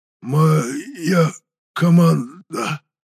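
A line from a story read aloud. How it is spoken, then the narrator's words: Hoarse wheeze, bloody gurgle. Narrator (Russian): прохрипел мужчина, роняя из губ кровавую пену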